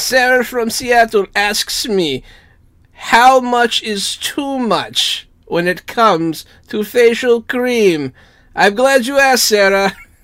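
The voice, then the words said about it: Put-on German accent. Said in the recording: “I made him like German and made it like work a little bit. And people seem to enjoy my German accent.”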